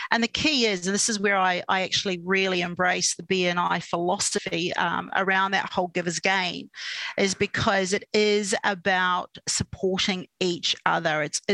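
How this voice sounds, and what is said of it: New Zealand accent. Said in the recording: “you probably can hear a bit of an accent. I still say six instead of six. ... in good old New Zealand”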